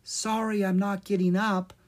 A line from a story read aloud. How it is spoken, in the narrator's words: Sola said in a thin voice